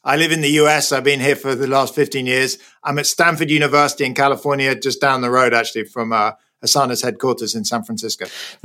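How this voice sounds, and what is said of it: British accent. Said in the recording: “You can hear probably from my accent, I was born in Britain. I'm now a bit of a fake Brit.”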